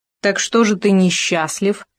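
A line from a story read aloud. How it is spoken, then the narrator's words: Hedgehog snorting. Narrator (Russian): фыркнул еж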